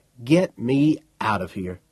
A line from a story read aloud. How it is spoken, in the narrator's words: Poole said